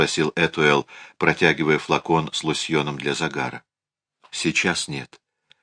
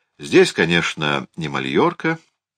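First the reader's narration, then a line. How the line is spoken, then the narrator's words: Cheerful. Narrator (Russian): весело заметил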